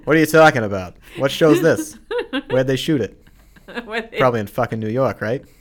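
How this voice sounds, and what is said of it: Boston accent. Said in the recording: “it's only when you use your Boston accent that the F-bombs start flying”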